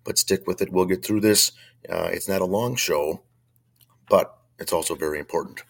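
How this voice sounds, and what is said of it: Very hoarse voice. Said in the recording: “I'm fighting a bad chest cold. My voice is not the same. It's very hoarse”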